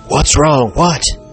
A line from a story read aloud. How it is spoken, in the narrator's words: asked anxiously